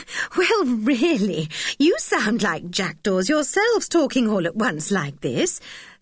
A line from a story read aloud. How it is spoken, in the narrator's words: said Aunt Fanny with a laugh